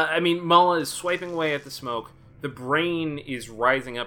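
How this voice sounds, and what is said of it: Usual voice. Nothing is said of it.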